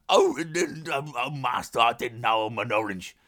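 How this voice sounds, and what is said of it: Imitates another person's voice. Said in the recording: “That's my impression of Andy Serkis being an orange.”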